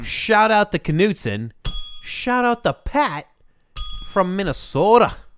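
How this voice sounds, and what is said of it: Poor attempt at Minnesotan accent. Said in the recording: “Is that your attempt at Japanese? ... that was my attempt at a Minnesotan accent. ... It was closer to Japanese. ... you can't do it, though.”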